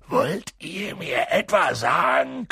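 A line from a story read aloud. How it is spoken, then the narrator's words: Growling. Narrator (German): knurrte er sie an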